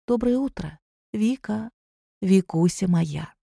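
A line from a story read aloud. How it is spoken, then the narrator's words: Soft and tender. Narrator (Russian): произнесла тихо и ласково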